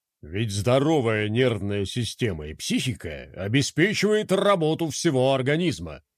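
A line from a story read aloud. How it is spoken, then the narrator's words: Sudden trained bass. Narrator (Russian): Внезапно произнес Коко хорошо поставленным басом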